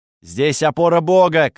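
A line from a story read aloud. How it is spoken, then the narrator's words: Shouted. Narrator (Russian): крикнул я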